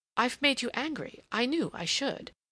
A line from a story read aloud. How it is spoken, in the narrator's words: she exclaimed